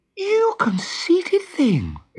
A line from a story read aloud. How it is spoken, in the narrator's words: exclaimed Wendy